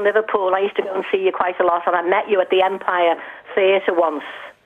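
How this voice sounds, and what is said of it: Liverpool accent. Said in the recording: “I love your accent from Liverpool”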